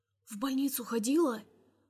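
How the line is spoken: Whispered question. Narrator (Russian): спрашивает шепотом

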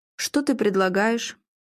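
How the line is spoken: Cold. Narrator (Russian): холодно поинтересовался Филипп

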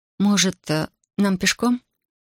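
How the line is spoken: Hesitant suggestion. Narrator (Russian): Неуверенно предложила она

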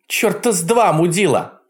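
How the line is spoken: Shout. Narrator (Russian): крикнула она

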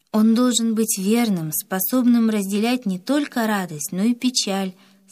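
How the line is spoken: Plain. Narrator (Russian): сказала Валя

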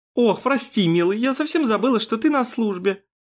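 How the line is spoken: Approving laugh. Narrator (Russian): Доминика одобряюще рассмеялась

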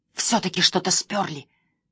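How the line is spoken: Hissed. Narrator (Russian): зашипела Эмили

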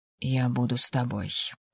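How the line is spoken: Whisper. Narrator (Russian): прошептал Райан

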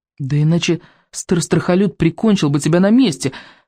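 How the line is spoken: Frightened exclamation. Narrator (Russian): воскликнул Икинг, уже всерьез испугавшись за Рыбьенога

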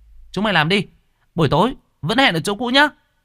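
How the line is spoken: Shout. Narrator (Vietnamese): miệng hét lên

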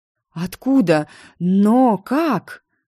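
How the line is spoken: Bewildered breathless chorus. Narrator (Russian): хором выдохнули Калахари, растерявшись от моих откровений

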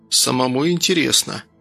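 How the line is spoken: Tired, smiling. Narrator (Russian): устало улыбнулся Данил

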